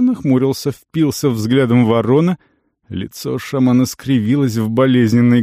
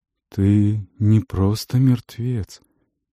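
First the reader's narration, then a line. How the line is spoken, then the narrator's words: Hollow old voice, coughing. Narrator (Russian): сказал Есир глухим старческим голосом и закашлялся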